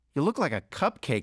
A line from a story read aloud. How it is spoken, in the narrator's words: I blurted